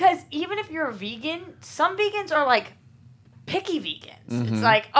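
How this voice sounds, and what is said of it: Usual voice. Nothing is said of it.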